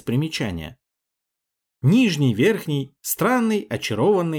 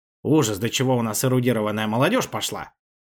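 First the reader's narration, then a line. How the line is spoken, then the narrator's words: Grumbled. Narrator (Russian): пробурчал Петр Степанович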